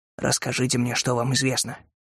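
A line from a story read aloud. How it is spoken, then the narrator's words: Whispered. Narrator (Russian): прошептал Кэллоуэй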